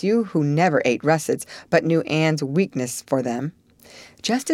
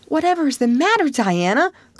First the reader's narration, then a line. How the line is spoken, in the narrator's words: cried Anne